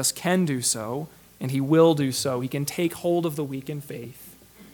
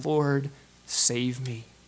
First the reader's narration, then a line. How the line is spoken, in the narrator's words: he cries out